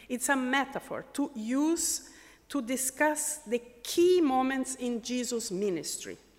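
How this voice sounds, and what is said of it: Portuguese accent. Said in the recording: “My Portuguese accent.”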